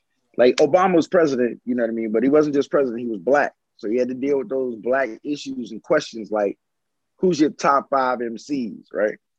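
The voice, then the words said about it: Imitates another person's voice. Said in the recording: “that impression is good enough that you should do it on stage." So this is my impression of Obama”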